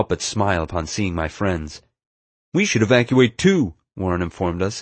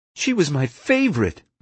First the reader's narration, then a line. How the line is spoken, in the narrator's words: Warren exclaimed